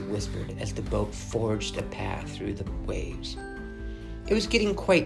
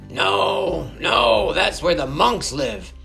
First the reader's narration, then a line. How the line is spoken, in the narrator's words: shouted the fisherman